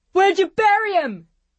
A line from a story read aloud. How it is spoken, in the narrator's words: another yelled